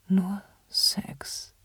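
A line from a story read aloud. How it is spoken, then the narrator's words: Quiet. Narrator (German): sagte ich leise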